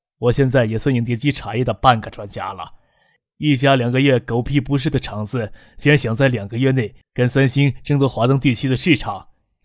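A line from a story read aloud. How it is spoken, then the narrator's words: Exclaiming, lamenting. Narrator (Chinese): 宋培明不得的感叹起来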